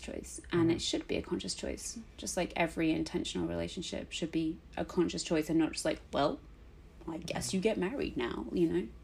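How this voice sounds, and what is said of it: Speaks with a noticeable accent. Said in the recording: “It sounds better in your accent. ... Everything sounds better in my accent.”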